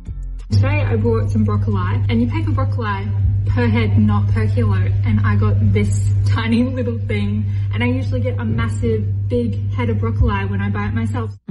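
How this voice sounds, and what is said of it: Australian accent. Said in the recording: “She's clearly Australian. It's clearly the accent.”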